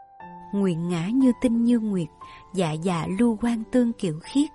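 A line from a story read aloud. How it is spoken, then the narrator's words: Soft gentle woman. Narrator (Vietnamese): nàng cũng nhỏ nhẹ nói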